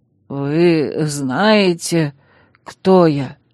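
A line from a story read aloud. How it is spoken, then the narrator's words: Hoarse question. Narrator (Russian): севшим голосом спросил пленник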